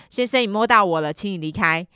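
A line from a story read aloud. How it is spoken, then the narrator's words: Loud, prompt. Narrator (Chinese): 我立刻大声说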